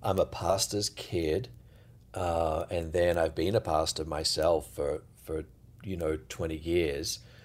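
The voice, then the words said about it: Australian English accent. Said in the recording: “you're not from around here ... Americans can't often tell the difference between Australian accents or British accents ... many people might assume you're British ... I'm an Aussie”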